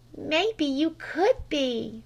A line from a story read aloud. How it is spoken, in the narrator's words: relaxed Flame ever so faintly